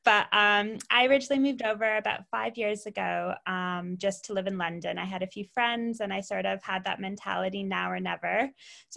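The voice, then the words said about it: Canadian accent, not English. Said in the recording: “your accent doesn't sound like you're originally from England ... I'm Canadian originally”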